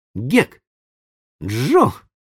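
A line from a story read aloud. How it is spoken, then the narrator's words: Exclamation. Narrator (Russian): воскликнул он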